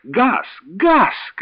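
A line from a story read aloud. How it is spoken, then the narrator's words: Shouting. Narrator (Russian): кричала она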